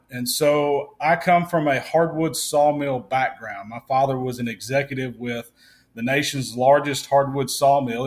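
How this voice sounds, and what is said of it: Mississippi Southern US accent. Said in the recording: “I'm from Mississippi... I'm not French Canadian by any means. I am from Mississippi. I have an accent. I can't avoid it.”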